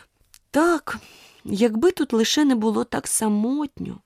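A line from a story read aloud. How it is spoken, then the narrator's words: Sorrowful tearful sigh. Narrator (Ukrainian): журливо зітхнула Аліса, і дві великі сльозини скотилися їй по щоках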